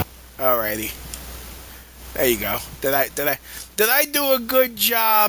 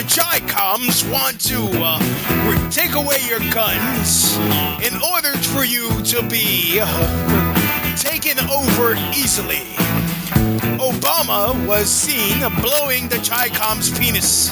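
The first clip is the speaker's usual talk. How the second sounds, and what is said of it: Rush Limbaugh impression. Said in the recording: “imitating Rush Limbaugh?”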